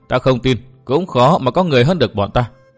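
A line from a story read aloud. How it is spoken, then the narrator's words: Cold dismissive laugh. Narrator (Vietnamese): Nàng áo đen cười nhạt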